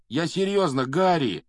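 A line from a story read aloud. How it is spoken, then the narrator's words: Pleading. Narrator (Russian): взмолился Рон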